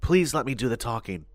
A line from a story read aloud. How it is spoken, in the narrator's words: I said quietly